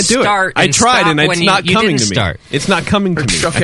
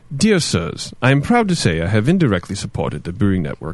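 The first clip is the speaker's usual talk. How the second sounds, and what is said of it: Poor attempt at English accent. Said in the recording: “Yeah, you can't do it. ... Awful. ... Why did he think you could do an English accent?”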